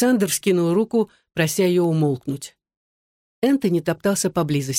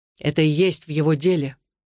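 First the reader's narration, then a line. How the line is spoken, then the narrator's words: Even tone. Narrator (Russian): ровным тоном ответил Сэм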